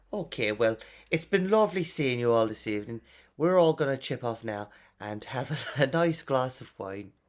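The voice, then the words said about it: Poor put-on Irish accent. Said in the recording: “That's a terrible Irish accent.”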